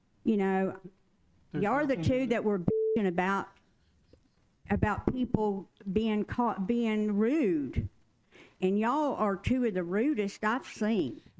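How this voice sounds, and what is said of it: Southern American accent. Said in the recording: “that particular word said with a Southern accent”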